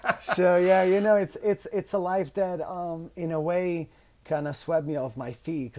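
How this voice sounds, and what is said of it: Italian accent. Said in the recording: “It's all about your Italian accent.”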